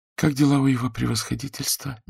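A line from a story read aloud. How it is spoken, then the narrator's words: Quiet question. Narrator (Russian): негромко спросила Ханна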